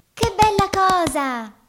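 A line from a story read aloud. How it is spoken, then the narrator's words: Fairy's delighted exclamation, clapping. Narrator (Italian): esclamò la fata battendo le mani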